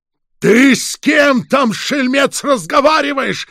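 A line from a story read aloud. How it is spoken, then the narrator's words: Old man shouting. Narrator (Russian): снова прокричал дед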